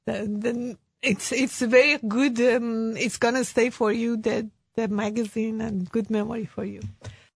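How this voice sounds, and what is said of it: Hoarse, strained voice. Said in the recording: “Sorry, my voice has gone today.”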